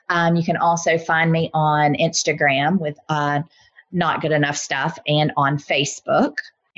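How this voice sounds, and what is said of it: Deep Southern US accent. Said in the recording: “my deeply Southern accent”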